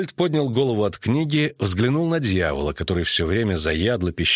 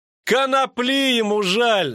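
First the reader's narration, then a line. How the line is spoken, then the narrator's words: Laughing. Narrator (Russian): засмеялся Лютик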